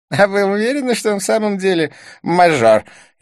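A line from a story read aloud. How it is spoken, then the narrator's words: Snide question. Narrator (Russian): ехидно поинтересовался близнец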